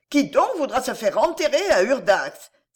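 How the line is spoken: Shrill old woman's cry. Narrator (French): s'écriait d'une voix perçante une vieille femme

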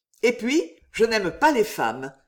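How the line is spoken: Abrupt, curt. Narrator (French): déclara-t-il à brûle-pourpoint d'un ton sec

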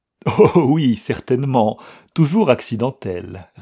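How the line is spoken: Laughing reply. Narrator (French): répliqua Gustave en riant

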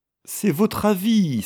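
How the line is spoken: Exclaiming. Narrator (French): s'écria-t-il

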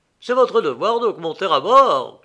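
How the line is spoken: Shouting captain. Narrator (French): criait le capitaine

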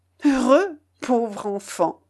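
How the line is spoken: Stammering. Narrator (French): balbutia-t-il

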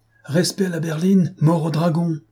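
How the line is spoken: Sudden shout while galloping. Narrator (French): s'écria soudain la voix d'un homme lancé au triple galop de son cheval

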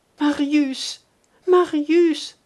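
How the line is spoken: Exclaiming. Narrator (French): s'écria-t-elle

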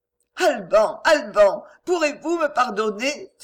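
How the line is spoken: Exclaimed. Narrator (French): s'écria-t-elle

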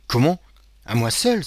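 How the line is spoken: Crying out. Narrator (French): s'écria Caderousse

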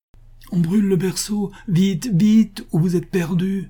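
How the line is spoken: Exclaiming. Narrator (French): s'écria-t-il

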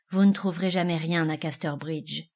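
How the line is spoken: Conclusive declaration. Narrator (French): déclara Henchard, d'un ton concluant

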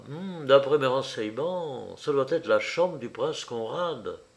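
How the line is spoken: Murmured. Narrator (French): Paul murmura

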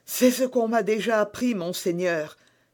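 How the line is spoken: Exclaiming. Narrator (French): s'écria Bonacieux

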